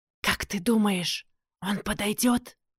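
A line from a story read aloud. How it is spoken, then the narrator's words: Teen's whispered question. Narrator (Russian): шепотом спросил один из подростков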